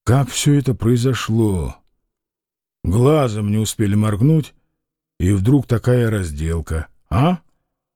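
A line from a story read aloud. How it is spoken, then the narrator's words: Timid, quiet. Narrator (Russian): Фома робко и негромко сказал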